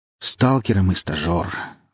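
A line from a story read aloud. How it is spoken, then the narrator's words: Sighing. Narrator (Russian): вздохнул я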